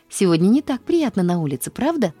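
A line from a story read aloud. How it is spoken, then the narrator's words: Cheerful exclamation. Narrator (Russian): воскликнула она весело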